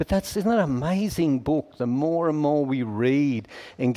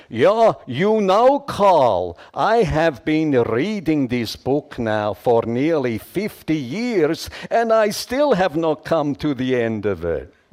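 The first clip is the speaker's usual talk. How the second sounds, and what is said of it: Strong Swiss accent. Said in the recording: “in his strong Swiss accent”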